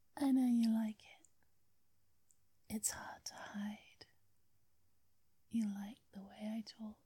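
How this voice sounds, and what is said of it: English accent. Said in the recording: “this sweet English accent ... How very English I sound”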